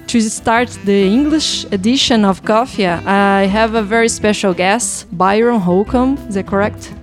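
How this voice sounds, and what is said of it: Speaker's own self-described weird accent. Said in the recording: “my weird accent”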